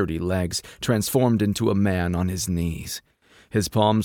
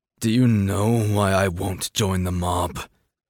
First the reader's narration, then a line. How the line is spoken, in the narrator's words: Kai asked, a vicious snarl still wound into his features